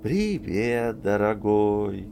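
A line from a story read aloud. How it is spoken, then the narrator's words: Lazy singsong wind. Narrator (Russian): пропел ветер, лениво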